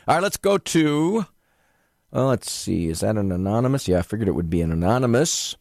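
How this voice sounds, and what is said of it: Low, congested voice with a cold. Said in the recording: “sounds like you got a cold. Well, you're right ... My voice is low enough”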